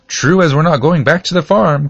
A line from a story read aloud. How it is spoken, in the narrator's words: cried the cabbages